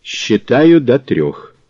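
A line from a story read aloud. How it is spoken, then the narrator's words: Cold, curt. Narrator (Russian): Мазур бросил холодно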